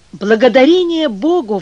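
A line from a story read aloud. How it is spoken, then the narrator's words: Heartfelt exclamation. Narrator (Russian): воскликнул с чувством Волынский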